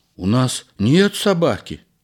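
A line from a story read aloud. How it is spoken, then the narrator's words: Frightened wife. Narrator (Russian): испуганно ответила жена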